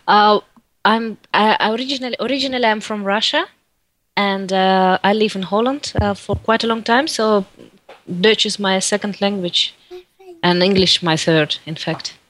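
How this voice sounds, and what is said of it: Mixed Russian and Dutch accent. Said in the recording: “what kind of accent do you have? ... I think it's kind of a mix of Russian and Dutch. ... Accent.”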